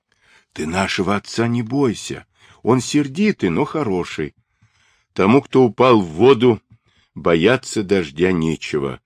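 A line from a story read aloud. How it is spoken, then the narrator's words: Gloomy. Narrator (Russian): хмуро ответил Темуджин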